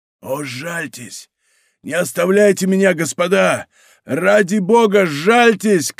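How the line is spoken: Desperate shouting, half-drowning. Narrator (Russian): кричал Мордаунт, над которым бушевала холодная волна, когда он опускал голову под воду

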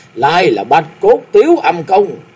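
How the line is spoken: Shrieking laugh. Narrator (Vietnamese): Lão ma cười rú lên

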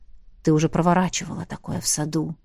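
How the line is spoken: Whispering dragon. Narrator (Russian): прошептал дракон

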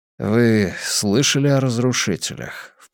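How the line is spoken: Low-voiced question. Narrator (Russian): вполголоса спросил Хайнс

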